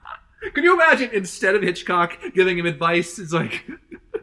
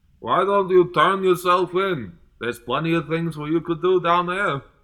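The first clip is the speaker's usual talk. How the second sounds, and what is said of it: Hitchcock impression drifting into Zoidberg. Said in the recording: “my Hitchcock impression is slowly turning into Zoidberg ... I've always known it sounded like Zoidberg”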